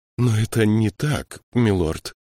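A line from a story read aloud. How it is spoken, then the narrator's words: Trembling objection. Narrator (Russian): дрожащим голосом возразил канцлер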